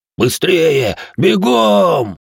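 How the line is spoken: Frantic scream from afar. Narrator (Russian): истошно заорал из конца строя Иоши

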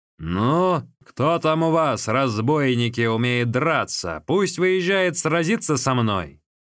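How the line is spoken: Loud question. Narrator (Russian): громко спросил

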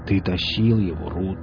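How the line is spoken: Muttering. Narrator (Russian): пробормотал Велес

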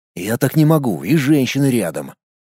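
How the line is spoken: Snorting hmph. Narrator (Russian): Он хмыкнул

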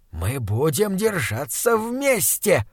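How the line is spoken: Determined hiss. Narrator (Russian): прошипел он решительно

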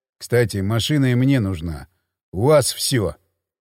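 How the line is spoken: Gloomy. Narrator (Russian): мрачно сказал Хмель

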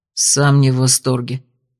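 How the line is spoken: Gruff mutter. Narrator (Russian): буркнул Георг

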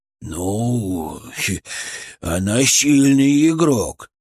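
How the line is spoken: Creaky, respectful voice. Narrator (Russian): с несвойственным ему уважением проскрипел Фырк

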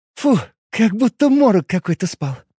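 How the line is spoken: Relieved exhale. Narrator (Russian): выдохнула Хоук

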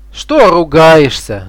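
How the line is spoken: Shouting. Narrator (Russian): закричал он на старуху

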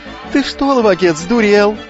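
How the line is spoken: Yelling. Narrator (Russian): заорал лукавый

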